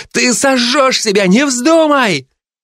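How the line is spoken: Terrified girl screaming. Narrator (Russian): девушка в ужасе закричала

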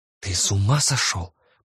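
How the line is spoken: Mother's hiss. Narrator (Russian): прошипела мама

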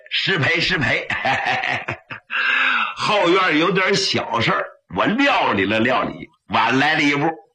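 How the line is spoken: Ingratiating, smiling. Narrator (Chinese): 于天庆满面陪笑

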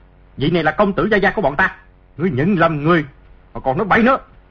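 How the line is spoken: Group shouting loudly. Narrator (Vietnamese): Bọn tùy tùng Trịnh phủ cùng quát lớn

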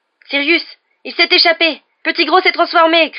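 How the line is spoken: Shouting. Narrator (French): cria Harry

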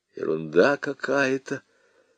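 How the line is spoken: Muttered. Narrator (Russian): пробормотал

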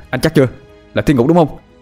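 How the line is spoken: Shouted back. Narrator (Vietnamese): Tôi hét lại

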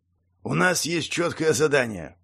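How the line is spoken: Gruff thug muttering. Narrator (Russian): пробурчал головорез

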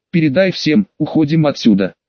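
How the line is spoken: Heavy voice. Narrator (Russian): Шиноби со шрамом сказал тяжелым голосом

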